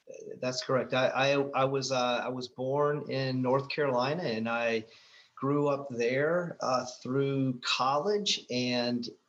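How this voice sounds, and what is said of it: Soft Southern American accent. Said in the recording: “you have this nice little soft Southern accent”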